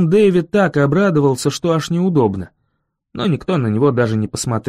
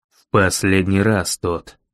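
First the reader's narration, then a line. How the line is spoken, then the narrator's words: Sighing. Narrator (Russian): вздохнул мэр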